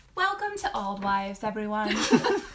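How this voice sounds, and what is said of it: Sweet kindergarten-teacher voice. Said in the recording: “You sound like a good teacher. ... Like a kindergarten teacher.”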